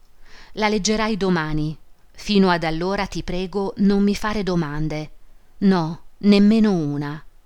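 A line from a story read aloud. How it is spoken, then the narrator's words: Solemn tone. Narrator (Italian): disse in tono solenne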